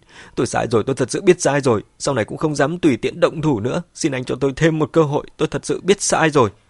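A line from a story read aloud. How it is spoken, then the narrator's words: Terrified, tearful pleading. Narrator (Vietnamese): Mẹ Quân mặt mày rất hoảng sợ, khóc lóc van xin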